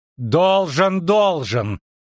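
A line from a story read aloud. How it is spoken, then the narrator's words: Loud interruption. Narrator (Russian): прервала Веспуля громко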